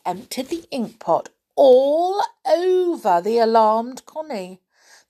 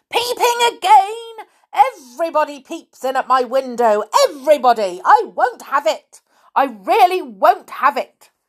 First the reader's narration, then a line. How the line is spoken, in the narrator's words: yelled loudly